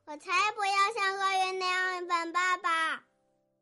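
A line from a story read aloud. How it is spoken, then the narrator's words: Little bear crying out. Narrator (Chinese): 熊宝宝叫道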